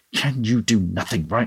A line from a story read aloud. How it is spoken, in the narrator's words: She growled